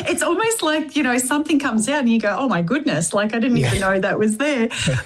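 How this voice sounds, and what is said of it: Australian-sounding accent. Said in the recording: “you do speak Australian... You don't really have a South African accent.”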